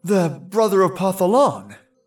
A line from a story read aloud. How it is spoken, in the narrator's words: the saint gasped